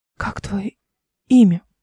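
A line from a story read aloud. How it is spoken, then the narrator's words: Whisper. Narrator (Russian): прошептала она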